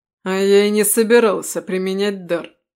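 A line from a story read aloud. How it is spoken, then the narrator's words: Snort. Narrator (Russian): фыркнул Рэм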